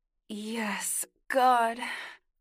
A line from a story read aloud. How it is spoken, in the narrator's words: Eli groaned, as Meredith pleasured his cock